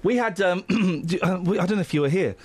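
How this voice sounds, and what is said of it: Hoarse, croaky voice. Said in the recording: “I've got a frog in my throat.”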